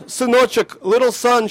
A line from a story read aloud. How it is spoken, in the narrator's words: she shouted